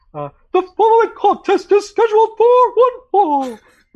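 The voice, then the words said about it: High-pitched ring announcer voice. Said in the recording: “Do you have a Howard Finkel impression? ... he has a fucking high voice ... He had that high voice, man ... a sick original cadence”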